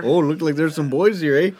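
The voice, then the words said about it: Put-on Canadian accent. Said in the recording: “Can they have Canadian accents?”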